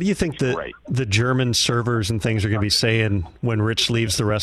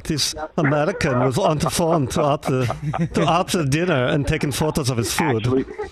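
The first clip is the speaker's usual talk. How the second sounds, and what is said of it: Put-on German accent. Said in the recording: “Sound like the guy from Sprockets. That's very good. ... doing a German accent”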